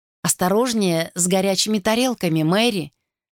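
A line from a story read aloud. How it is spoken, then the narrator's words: Firm voice. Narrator (Russian): сказала она твердым голосом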